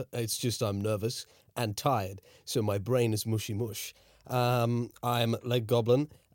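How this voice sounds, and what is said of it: Character voice. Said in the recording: “I'm currently in my character voice. You'll hear my regular voice later.”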